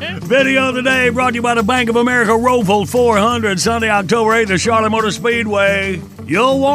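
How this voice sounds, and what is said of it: Usual voice. Nothing is said of it.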